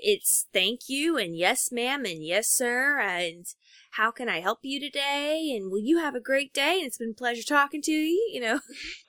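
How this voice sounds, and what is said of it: Southern American accent. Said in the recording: “I heard it right there ... My Southern accent comes out in my customer service”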